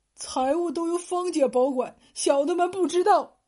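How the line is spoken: Frightened quiet voice. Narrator (Chinese): 仆人们吓得 其中一个小声说道

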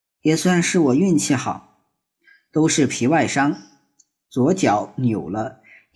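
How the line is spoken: Sighing. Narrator (Chinese): 木石榴叹口气道

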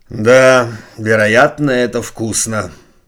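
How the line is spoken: Sad, smiling man. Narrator (Russian): сказал прокурор, грустно улыбаясь

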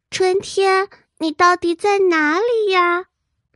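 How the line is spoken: Loud shouting. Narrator (Chinese): 它大喊着

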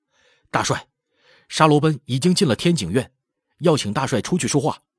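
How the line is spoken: Loud report. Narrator (Chinese): 一个哥什哈…大声禀道

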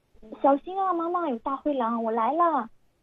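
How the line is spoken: Urgent shout. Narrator (Chinese): 波波就马上叫起来说

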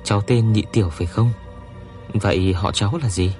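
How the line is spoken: Gentle question. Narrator (Vietnamese): Sở Lệ Dường vừa dịu dàng hỏi

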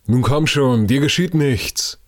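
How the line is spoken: Calling down. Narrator (German): rief Hypatia von dem Rücken der zweiten Krabbe herunter

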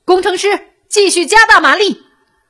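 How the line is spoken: Shouting. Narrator (Chinese): 他又喊道

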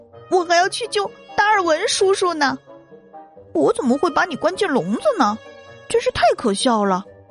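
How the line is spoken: Shouting. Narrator (Chinese): 多多喊道

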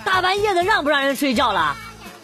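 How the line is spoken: Impatient shout. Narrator (Chinese): 不耐烦的对着墙大喊

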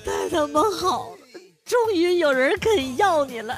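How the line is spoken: Choked with tears. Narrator (Chinese): 我妈哽咽着说

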